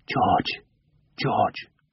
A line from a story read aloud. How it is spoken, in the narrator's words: He whispered